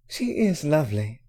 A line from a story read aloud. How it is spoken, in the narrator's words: Hermione sighed